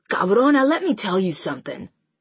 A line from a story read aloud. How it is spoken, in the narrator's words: Alex says harshly